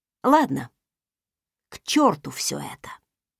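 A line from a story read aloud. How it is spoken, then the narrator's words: Displeased snort. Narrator (Russian): Недовольно фыркнув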